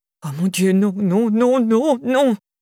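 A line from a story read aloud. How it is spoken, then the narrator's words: Moaning. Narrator (French): gémissait-il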